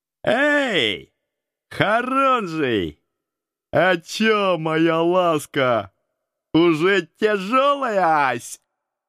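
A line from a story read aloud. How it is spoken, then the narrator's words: Loud shout. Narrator (Russian): Самый первый громко крикнул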